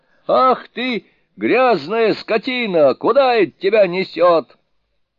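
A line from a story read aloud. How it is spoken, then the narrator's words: Angry shout. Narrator (Russian): Джубадзе закричал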